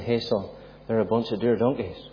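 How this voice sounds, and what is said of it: Ballymena Northern Irish accent. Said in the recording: “he'd lean over to me in his Ballymena accent”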